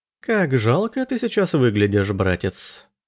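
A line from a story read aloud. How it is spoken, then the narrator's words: Purring. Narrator (Russian): промурлыкал Андерс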